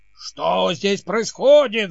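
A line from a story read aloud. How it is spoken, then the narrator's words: Shouting. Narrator (Russian): закричал король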